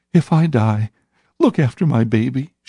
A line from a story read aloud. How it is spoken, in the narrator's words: she sobbed